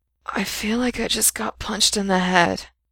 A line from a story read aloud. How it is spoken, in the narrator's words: he rasped, if it hadn't hurt to move